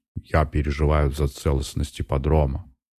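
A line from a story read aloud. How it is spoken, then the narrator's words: Displeased mutter. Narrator (Russian): недовольно буркнул он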